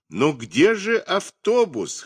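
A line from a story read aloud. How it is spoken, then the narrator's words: Loud laughter. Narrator (Russian): хохотали они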